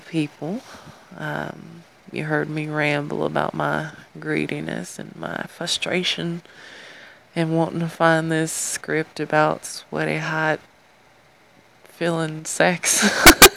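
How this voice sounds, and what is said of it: Southern American accent. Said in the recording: “you got to hear me in my southern accent again”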